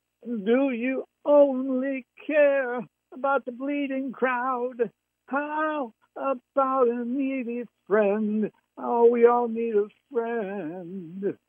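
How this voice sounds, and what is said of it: Singing in a tenor voice. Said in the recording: “That was in my tenor voice. I can go lower than that.”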